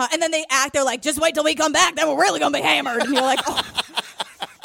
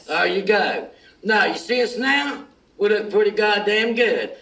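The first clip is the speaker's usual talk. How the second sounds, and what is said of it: Low gravelly character voice. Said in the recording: “My voice is gonna be shot doing that low gravelly thing.”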